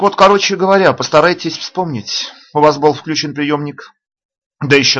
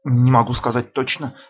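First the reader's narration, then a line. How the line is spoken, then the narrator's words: Muttering. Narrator (Russian): бормочет Монью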